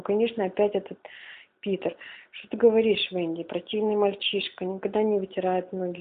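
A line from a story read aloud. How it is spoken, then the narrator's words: Sighing. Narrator (Russian): вздохнула Венди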